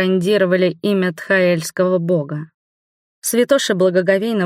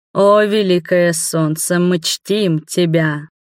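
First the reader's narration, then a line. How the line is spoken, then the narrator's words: Priest's booming voice. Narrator (Russian): громогласным голосом произнес жрец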